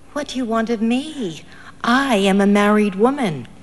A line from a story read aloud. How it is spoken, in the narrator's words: she gathered courage and murmured